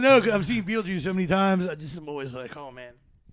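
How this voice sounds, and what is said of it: Usual voice. Nothing is said of it.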